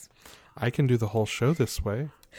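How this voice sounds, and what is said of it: Soft, calm ASMR-style voice. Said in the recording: “I really appreciate your ASMR voice ... My ASMR voice is a little bit homicidal AI”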